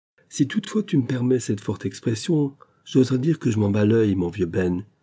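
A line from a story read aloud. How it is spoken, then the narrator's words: Louder exclamation. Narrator (French): s'écria Semi d'une voix plus haute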